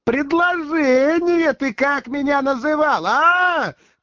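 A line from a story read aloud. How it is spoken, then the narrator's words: Shouting. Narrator (Russian): кричала она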